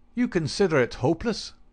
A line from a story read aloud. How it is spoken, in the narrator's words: cried the inspector